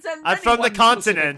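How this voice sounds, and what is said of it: Put-on transatlantic accent. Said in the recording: “It's a very Katharine Hepburn like transatlantic accent.”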